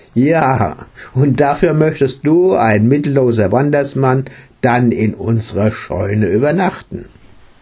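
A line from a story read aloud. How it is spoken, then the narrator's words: Laughing question. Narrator (German): Er lachte und fragte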